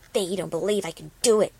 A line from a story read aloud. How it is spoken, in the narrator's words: she whispered hoarsely